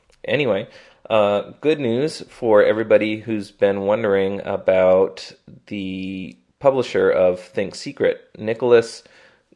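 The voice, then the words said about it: Congested voice from a cold. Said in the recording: “I have a little bit of a cold going on here... I apologize if I sound a little off”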